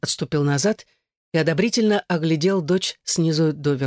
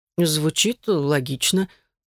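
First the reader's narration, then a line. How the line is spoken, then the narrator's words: Uncertain agreement, father. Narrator (Russian): неуверенно согласился отец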